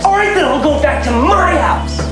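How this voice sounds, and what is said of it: Shouting. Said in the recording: “don't shout. ... I'll shout if I want to ... Why are you shouting?”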